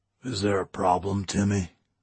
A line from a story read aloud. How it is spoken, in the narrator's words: he asked gruffly